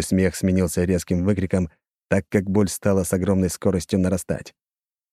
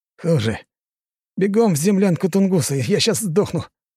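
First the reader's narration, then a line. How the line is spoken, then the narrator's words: Exhausted, strained gasp. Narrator (Russian): Из последних сил выдавил я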